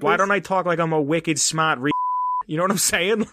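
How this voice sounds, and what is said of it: Put-on Boston accent. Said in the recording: “can we get your Boston accent again, please?”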